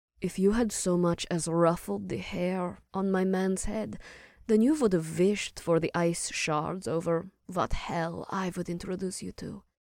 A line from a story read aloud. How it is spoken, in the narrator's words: Phelan said softly, but still loud enough for Ash to hear